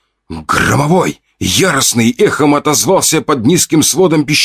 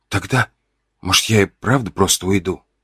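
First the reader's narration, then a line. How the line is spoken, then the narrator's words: Quiet. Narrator (Russian): Сказал я тихо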